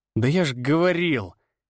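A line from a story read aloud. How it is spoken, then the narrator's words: Angry. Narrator (Russian): сердито начал Даниил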